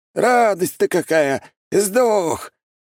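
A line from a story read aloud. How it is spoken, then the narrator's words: Old man yelling. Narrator (Russian): Старик заорал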